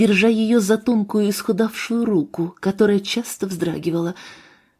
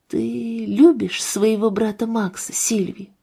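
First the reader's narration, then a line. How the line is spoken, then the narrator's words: Whispered. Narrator (Russian): прошептал я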